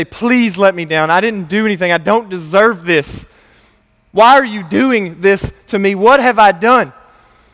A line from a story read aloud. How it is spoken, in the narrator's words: plead and say